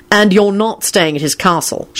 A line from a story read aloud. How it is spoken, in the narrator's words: Shacklebolt told Lupin sternly